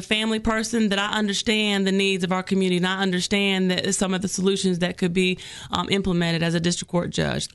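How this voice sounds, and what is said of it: Sweet Southern American accent. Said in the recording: “you take that sweet southern accent back to Egypt”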